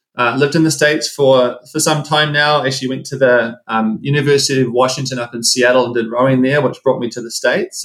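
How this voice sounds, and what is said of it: New Zealand accent. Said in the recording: “I'm from New Zealand. You probably hear the accent come through.”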